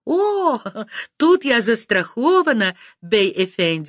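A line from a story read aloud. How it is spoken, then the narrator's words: Laughing reply. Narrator (Russian): смеялась я в ответ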